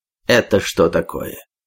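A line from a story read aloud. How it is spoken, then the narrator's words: Senior officer's angry question. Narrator (Russian): сердито спросил старший офицер Петр Петрович старшину баркаса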